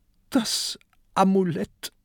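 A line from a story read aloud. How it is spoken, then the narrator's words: Sobbing. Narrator (German): schluchzt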